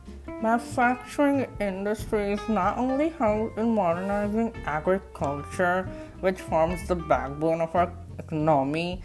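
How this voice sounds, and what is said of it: Fake accent. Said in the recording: “The fake accent guy.”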